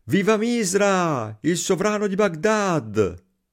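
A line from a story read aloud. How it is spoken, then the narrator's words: Crowd shouting. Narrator (Italian): Gli abitanti gridavano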